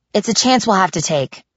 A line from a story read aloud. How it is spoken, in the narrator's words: I said irritably